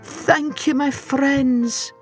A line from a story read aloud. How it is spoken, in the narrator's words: cried Timothy Tuttle, amidst a flurry of cheers and tears